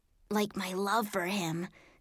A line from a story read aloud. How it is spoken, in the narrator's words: Sophie whispered to me